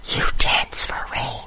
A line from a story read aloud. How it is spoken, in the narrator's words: I whisper